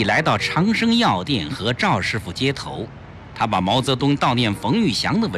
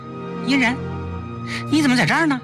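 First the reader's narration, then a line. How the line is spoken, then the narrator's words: Hurried call. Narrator (Chinese): 崔丽忙叫他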